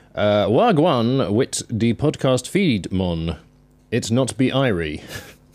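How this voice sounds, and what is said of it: Put-on Jamaican accent with West Country tinge. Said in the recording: “That's like West Country Jamaican... Like my Jamaican Twitter accent”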